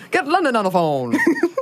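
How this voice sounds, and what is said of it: Put-on transatlantic accent. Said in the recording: “mid-central, mid-western, whatever that old accent is ... transatlantic ... that impression”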